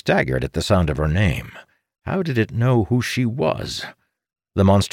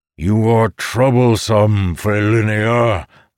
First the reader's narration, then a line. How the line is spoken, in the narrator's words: the monster bellowed